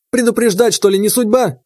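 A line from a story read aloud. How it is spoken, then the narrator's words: Snapping retort. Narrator (Russian): огрызнулся Степаныч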